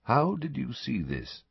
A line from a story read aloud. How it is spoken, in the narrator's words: Dumbledore asked quietly